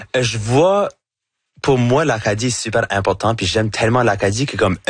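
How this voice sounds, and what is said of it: Acadian French accent, chiac. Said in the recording (French): “mon accent, avec mon chiac”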